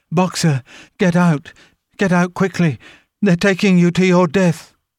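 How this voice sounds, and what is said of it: Anguished, terrible crying voice. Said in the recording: “in a terrible voice”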